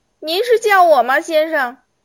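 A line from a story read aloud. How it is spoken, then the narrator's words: Weak, feeble. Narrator (Chinese): 马斯蒂诺有气无力的叫他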